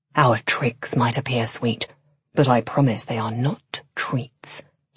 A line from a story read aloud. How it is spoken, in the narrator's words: he whispered